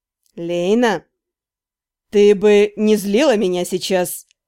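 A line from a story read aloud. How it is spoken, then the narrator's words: Gentle hinting tone. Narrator (Russian): Ласково намекнул женишок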